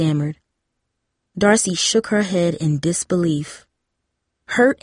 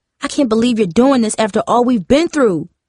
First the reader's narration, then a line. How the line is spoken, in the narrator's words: Darcy yelled